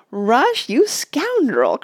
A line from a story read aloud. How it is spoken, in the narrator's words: cried Mona, but she laughed as hard as everybody else